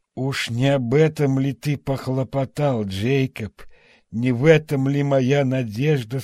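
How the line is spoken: Dejected voice. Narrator (Russian): спросил он упавшим голосом

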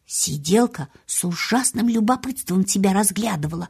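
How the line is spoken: Whispering. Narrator (Russian): прошептала она

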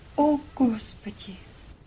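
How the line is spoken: Unhappy woman's whisper. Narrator (Russian): Несчастная мулатка прошептала

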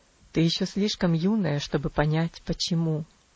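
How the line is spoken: Sad tone. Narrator (Russian): ответил он тем же печальным тоном

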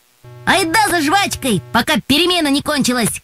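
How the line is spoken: Shouting. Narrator (Russian): крикнул Юра

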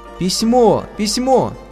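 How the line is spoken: Joyful shout. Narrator (Russian): радостно закричала Аня

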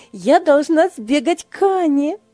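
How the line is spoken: Exclaimed. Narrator (Russian): воскликнула Ева

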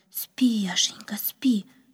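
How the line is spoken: Whisper. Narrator (Russian): прошептала она

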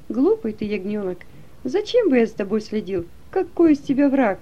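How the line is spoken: Laughing, friendly. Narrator (Russian): он рассмеялся, потом похлопал меня по плечу и сказал

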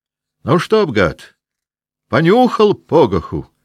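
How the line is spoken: Shouted in ear. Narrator (Russian): прокричал ему над ухом голос Васьки Денисова

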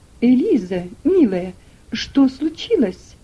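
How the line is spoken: Exclaimed. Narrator (Russian): воскликнула миссис Шельби

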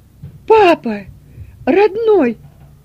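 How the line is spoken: Loud exclamation. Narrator (Russian): громко воскликнула она

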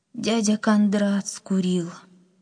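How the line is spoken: Sad old woman. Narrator (Russian): грустно ответила бабушка

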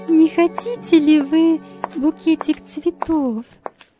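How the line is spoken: Timid, apologetic question. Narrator (Russian): робко спросила она, как бы извиняясь

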